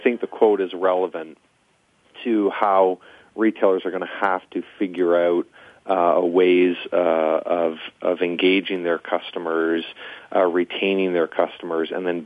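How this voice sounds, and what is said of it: Strong Canadian accent. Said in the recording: “I think I detect a strong Canadian accent.”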